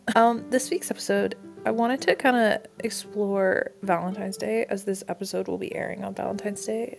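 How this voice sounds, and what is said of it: Slightly muffled, funny-sounding voice. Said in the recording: “my voice sounds a little bit weird this week, I had my wisdom teeth out, so I may sound a little funky ... puffy cheeks that are causing this”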